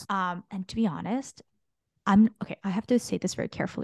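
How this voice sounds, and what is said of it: Exaggerated whisper. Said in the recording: “I'm whispering because ... why are you whispering? ... to make the effect exaggerated.”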